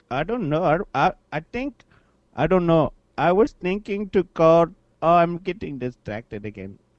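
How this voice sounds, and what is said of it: Speaks with a noticeable accent. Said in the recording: “Nothing, just your accent”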